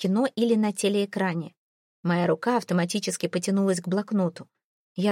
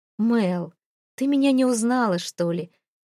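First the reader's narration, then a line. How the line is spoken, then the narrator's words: Soft laugh. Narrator (Russian): Мягко рассмеялся он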